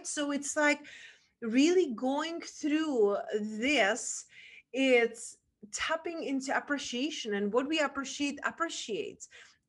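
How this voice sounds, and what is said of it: Non-native English accent. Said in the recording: “Who would understand my English? ... some people will appreciate the accent because they know I speak five languages”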